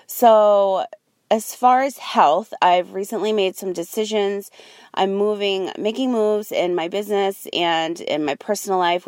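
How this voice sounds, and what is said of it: Tired, exhausted voice. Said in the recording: “You can probably hear the exhaustion in my voice”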